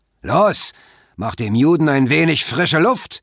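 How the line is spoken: Voice calling out. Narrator (German): rief eine Stimme

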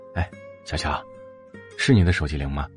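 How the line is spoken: Slightly hoarse gentle male voice. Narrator (Chinese): 一个略有些沙哑却很温柔的男声

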